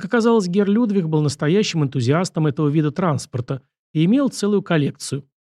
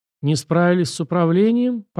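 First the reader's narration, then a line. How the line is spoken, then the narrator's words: Mocking old man. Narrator (Russian): поморщился насмешливо старик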